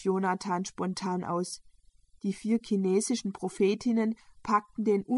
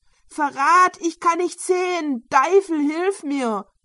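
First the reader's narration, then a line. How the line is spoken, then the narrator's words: Irritated shouting. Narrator (German): schrie der gereizte Gebundene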